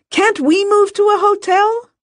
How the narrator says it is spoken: Lula cried

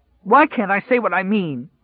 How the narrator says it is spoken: He cried

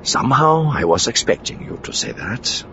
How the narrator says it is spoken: Card murmured

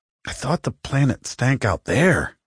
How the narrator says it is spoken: muttered Mattis

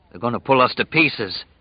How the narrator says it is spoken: he said in a dry voice

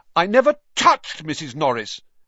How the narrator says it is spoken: Harry said loudly, uncomfortably aware of everyone looking at him

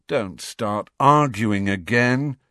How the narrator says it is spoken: said Harry wearily

